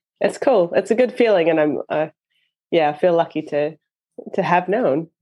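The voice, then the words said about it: Canadian accent. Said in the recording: “We can tell by your accent that you are not a Kiwi ... I'm from Canada”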